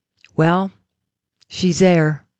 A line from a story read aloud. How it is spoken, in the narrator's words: The little old man calmly said